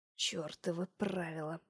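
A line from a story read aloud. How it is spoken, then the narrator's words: Hoarse rasp. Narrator (Russian): прохрипел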